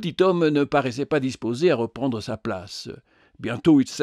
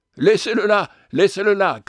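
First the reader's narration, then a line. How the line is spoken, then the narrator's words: Shouting. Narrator (French): cria-t-il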